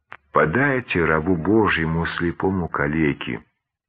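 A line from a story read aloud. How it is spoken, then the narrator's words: Timid plea. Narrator (Russian): робко попросил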